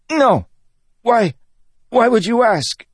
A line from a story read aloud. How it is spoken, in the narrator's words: the man sputtered